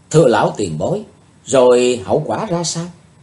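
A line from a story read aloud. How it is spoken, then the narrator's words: Suppressing a sigh. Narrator (Vietnamese): Chí Tôn nén tiếng thở dài nói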